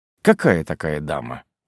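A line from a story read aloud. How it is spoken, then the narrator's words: Curt, clipped. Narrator (Russian): отрывисто бросил я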